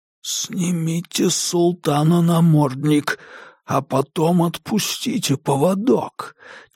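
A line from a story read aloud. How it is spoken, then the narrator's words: Barely audible whisper. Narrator (Russian): чуть слышно прошептал Диккенс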